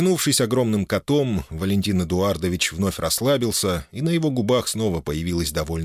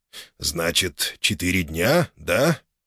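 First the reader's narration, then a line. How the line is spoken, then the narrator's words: Thoughtful drawl, father-in-law. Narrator (Russian): задумчиво протянул тесть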